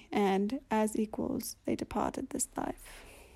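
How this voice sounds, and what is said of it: Wavering put-on British accent. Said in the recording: “half-in, half-out British accent ... it started turning, like, Scottish at times”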